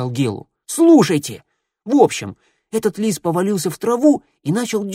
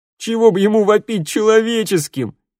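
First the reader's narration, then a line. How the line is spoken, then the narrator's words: Group guffawing. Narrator (Russian): захохотали ребята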